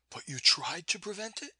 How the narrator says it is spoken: There was an emphasis on the tried, and a pleading little note in her voice

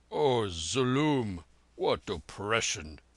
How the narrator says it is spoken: growled the Jat from his corner

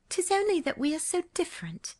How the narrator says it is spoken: she sighed

